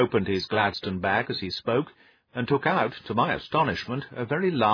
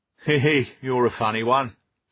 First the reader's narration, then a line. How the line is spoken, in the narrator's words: chuckled the inspector